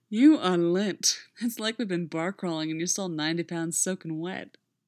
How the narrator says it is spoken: he slurred

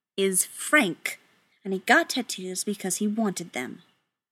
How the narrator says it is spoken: says icily

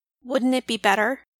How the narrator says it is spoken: Miss Device said coldly from behind them

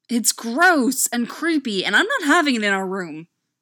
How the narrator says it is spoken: Styles grumbled

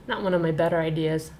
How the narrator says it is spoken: muttered

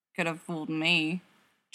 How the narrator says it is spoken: Jared grumbled, around yet another cookie

